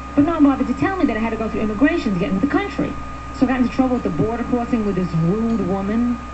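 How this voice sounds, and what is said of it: Noticeable foreign accent. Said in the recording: “She said she couldn't understand me because I had an accent.”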